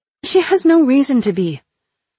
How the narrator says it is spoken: I exclaimed despite myself

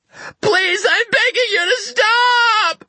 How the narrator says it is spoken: she screamed

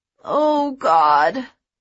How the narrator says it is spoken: Jen moaned

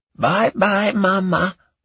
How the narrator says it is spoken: the old man said in a shrill voice

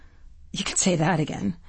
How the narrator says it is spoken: Hepburn mutters

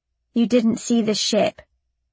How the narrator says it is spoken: I said flatly

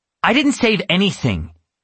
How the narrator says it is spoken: snapped

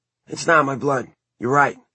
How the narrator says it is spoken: Simon said hoarsely

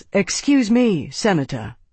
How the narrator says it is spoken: Tavi said, keeping his tone polite

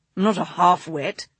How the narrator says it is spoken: he growled

